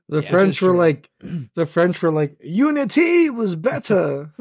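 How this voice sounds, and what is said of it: Bad put-on French accent. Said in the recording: “your French impersonation ... does an accent, likely offensively ... I wasn't very good at it”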